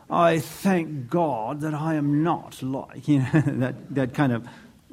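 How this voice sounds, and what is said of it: Mock British accent. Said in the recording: “we'd probably give him a British accent.”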